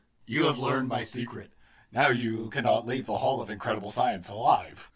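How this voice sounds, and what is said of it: Strange deep character voice. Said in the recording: “A strange, deep voice answers.”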